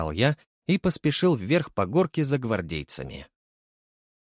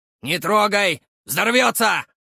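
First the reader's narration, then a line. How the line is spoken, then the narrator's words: Shout. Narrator (Russian): выкрикнул Санечек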